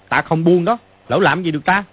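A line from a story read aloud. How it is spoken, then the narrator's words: Angry shout. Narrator (Vietnamese): Mã Quan Tá tức giận mà quát lên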